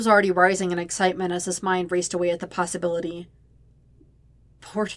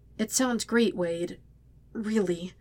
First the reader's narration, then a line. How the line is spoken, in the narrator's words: he choked out